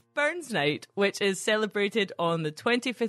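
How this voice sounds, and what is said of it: Put-on accent. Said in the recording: “Just do the whole episode in that accent.”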